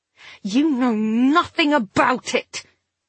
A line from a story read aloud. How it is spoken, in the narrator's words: the girl snarled